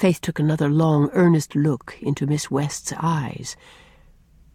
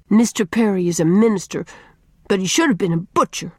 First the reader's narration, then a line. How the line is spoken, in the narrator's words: said Faith bitterly